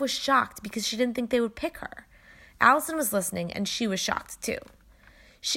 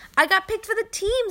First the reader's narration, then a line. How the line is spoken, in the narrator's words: Steph yelled in happiness